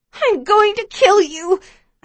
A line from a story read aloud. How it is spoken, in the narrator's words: I scream at her